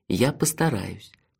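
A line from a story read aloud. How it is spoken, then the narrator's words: Tender promise. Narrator (Russian): нежно пообещал я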